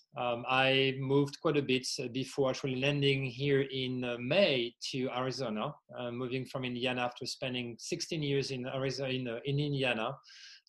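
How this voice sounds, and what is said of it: French accent in English. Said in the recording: “my accent is not native from the U.S., originally from France.”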